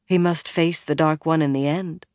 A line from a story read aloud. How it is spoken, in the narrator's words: Moiraine said calmly